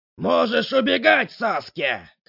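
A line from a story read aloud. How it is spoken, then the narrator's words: Man shouting. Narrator (Russian): кричал мужчина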